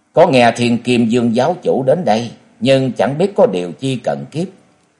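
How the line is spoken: Cold and sharp-tongued. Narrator (Vietnamese): cất giọng lạnh lùng đanh đá

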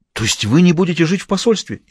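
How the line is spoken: Frightened question. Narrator (Russian): испуганно спросил Шривенхэм

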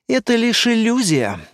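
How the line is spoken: Weary. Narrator (Russian): устало повторила она

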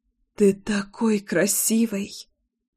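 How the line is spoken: Moan. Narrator (Russian): Простонала

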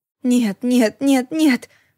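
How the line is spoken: Whimpering in horror. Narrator (Russian): захныкала я, когда тела начали обретать знакомые лица

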